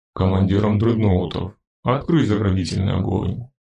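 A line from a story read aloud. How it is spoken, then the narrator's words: Growl. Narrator (Russian): прорычал он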